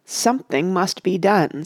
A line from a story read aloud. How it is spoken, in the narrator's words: said Mr